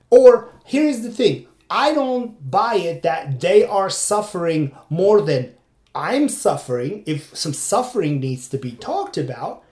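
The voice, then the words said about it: Foreign accent, non-native English speaker. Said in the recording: “because of my accent, because of my, my, my way of trying to deliver my point ... some foreigner comes here and tries to express himself in a fourth language”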